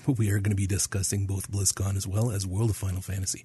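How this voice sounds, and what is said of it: Voice sounds sick. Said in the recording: “As you can tell from my voice, this is why we did not have an episode last week ... when you don't feel good”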